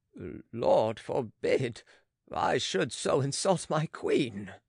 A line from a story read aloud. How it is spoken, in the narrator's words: he cried